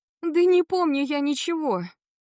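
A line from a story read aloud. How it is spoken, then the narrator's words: Screamed. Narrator (Russian): закричала я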